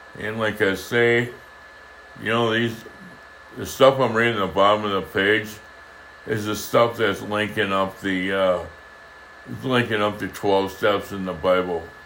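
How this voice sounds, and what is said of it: Raspy, strained voice. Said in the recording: “as you can hear, my voice is getting raspy.”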